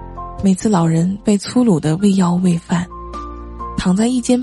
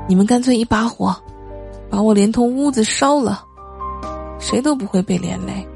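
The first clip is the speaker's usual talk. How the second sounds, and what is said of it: Pleading, begging voice. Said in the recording (Chinese): “用乞求的声音说”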